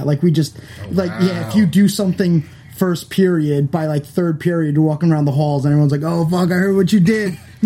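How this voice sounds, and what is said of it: Long Island accent. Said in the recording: “I love your accent, by the way. You're not from New York. You're from Long Island.”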